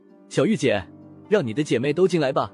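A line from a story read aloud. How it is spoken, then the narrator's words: Smiling. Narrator (Chinese): 风正苏笑着对小玉说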